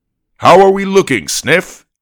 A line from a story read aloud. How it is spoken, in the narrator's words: he asked in a friendly, booming voice